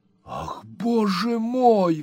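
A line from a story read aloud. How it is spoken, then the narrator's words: Exclamation. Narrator (Russian): воскликнул мистер Пиквик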